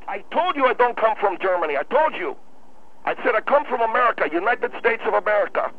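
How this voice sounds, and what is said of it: Noticeable foreign accent. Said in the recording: “you got an accent ... your accent is very noticeable ... you sound like, I asked you if you come from Germany”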